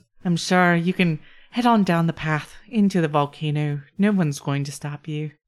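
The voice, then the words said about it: Mixed Irish-Scottish Celtic accent. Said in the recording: “the Gaelic accent. ... Slightly Irish, Gaelic, Scottish, Welsh, and offensive to all four ... slightly like Mrs. Doubtfire.”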